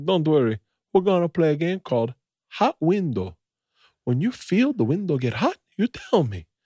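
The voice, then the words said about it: Attempted Peruvian accent. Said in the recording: “like a Peruvian dentist ... I'm bad at accents.”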